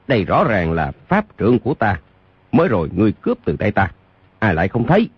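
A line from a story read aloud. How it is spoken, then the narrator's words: Forced loud laugh. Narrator (Vietnamese): Dương Khang gượng gạo cười lớn nói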